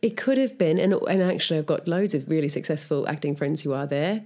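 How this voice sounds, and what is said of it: Australian accent. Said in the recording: “I get rubbish about my accent all the time and people think they're really good at doing imitations of it ... I think Australians are pretty chilled ... we don't mind the jesting”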